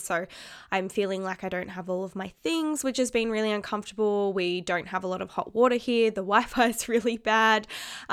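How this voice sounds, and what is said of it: Nasal, congested voice. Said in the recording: “You can probably still hear it in my voice... I'm still a bit nasally”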